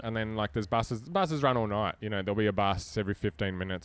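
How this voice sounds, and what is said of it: Australian accent. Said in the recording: “But they hear an Aussie accent.”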